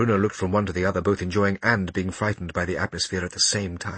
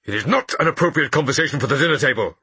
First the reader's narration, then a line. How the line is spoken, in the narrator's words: repeated Father sharply